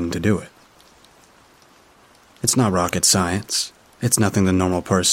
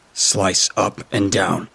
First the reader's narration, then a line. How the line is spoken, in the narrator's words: snapped